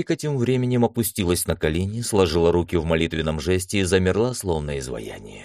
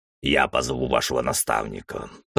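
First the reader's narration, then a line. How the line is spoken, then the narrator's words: Muttered under breath. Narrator (Russian): пробурчал под нос Центурий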